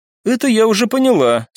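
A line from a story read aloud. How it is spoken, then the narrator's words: Said with giggle. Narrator (Russian): сказала Оливия, и хихикнула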